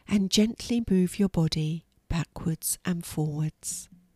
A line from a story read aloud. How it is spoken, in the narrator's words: instructed in her soft voice